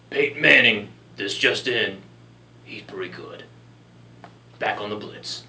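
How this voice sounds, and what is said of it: Imitates another person's voice. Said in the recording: “my Chris Berman impersonation”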